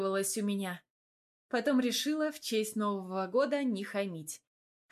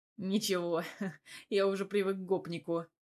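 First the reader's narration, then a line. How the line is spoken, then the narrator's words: After laughing. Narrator (Russian): отсмеявшись, ответил он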